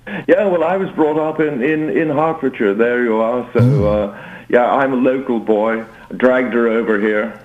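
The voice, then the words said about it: Strong American accent. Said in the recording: “I'm detecting an accent ... You've got a stronger American accent than she has.”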